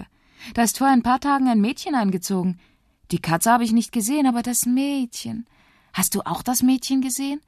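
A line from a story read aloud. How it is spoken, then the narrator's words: Excited question. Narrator (German): fragt Moritz aufgeregt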